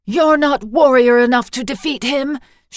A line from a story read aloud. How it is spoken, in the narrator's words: she cried